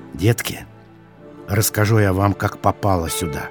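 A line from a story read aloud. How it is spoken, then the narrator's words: Old woman whispering. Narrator (Russian): шептала старушка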